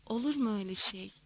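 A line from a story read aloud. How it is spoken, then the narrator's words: Muttering. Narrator (Turkish): diye mırıldandı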